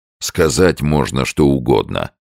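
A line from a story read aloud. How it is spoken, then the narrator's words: Grumbling. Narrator (Russian): проворчал Сомс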